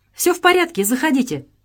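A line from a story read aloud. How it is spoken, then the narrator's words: Joyful reply. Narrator (Russian): радостно отозвалась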